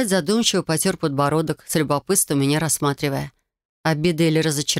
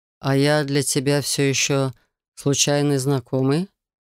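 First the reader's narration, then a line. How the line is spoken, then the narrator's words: Soft. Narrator (Russian): Мягко уточнил он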